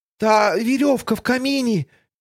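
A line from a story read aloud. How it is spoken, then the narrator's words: Squeak. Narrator (Russian): пискнула Тося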